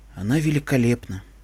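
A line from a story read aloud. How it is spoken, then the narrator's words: Quiet reply. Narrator (Russian): тихо ответил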